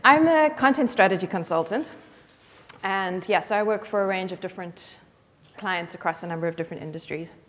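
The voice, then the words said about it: South African accent. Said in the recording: “I speak funny because I come from Cape Town, South Africa ... listen to my accent”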